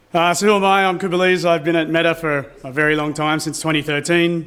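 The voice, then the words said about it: Thick Australian accent. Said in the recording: “I have a very thick Australian accent”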